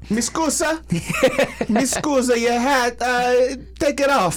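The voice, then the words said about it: Mock Italian-style accent. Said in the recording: “I don't even know what a Greek accent is. ... I just assumed. I just went Italian.”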